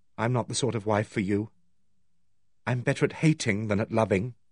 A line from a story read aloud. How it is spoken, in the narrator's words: She paused and then said gravely